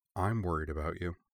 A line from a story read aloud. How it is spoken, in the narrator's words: she added in a still lower voice